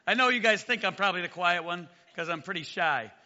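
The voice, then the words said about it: Raspy, strained voice. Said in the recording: “you might notice my voice a little bit raspy ... somehow I lost my voice ... if my voice cracks like I'm a 13-year-old”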